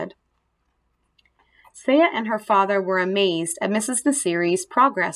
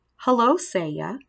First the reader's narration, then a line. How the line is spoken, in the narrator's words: she said